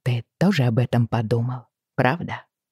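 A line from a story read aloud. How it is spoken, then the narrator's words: Half-voiced question. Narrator (Russian): спросила я вполголоса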